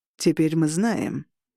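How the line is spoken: Icy voice. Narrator (Russian): ледяным голосом произнес чокнутый Роган

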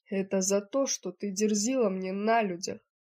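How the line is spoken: Growled. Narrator (Russian): прорычал Эбон

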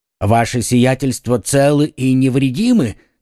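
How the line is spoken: Plain. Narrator (Russian): спросил трактирщик

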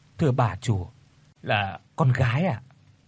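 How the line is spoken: Soft reply. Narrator (Vietnamese): Bà Tư khẽ đáp

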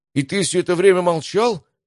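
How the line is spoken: Delighted exclamation. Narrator (Russian): воскликнул Матвей с восторгом

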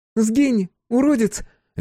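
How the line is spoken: Cheerful woman. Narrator (Russian): весело сказала ему Рита

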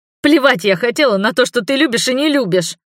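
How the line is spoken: Tearful snapping. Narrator (Russian): огрызнулась плаксивым тоном

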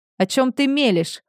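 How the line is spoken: Shout, then softened tone. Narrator (Russian): Он сначала выкрикнул, а потом словно вспомнил, что перед ним не враг, и сбавил тон

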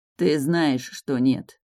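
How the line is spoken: Gloomy. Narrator (Russian): мрачно ответил мой дракон

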